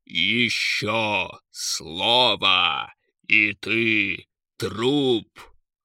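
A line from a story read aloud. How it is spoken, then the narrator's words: Menacing screech. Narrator (Russian): Грозно прокликотал он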